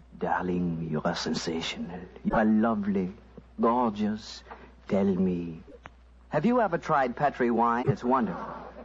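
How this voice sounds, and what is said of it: Whispered fake French accent. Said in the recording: “whispering in my fine French accent”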